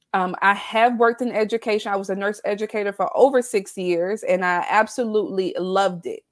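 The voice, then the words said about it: Southern American twang. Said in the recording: “born and raised in the South. So you'll hear that twang come out”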